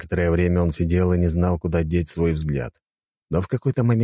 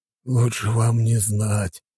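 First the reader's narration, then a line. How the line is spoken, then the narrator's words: Baron sighing. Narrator (Russian): вздохнул барон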